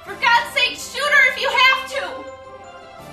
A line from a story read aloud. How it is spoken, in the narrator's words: she yelled out